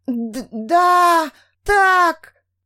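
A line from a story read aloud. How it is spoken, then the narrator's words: Louder moan. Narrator (Russian): Застонала Эстелла сильнее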